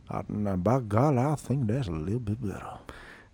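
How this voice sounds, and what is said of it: Slow put-on Savannah Southern accent. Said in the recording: “Savannah accent ... got the molasses coming out of your mouth”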